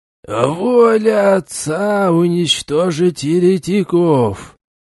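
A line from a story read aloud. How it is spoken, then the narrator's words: Creaky old shaman voice. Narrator (Russian): Скрипящим голосом проговорил самый старый и сильный шаман Чумбок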